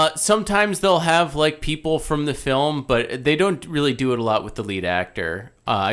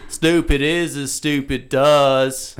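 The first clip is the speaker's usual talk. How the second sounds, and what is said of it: Imitated southern accent of a movie character. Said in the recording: “Forrest's accent ... a southern accent”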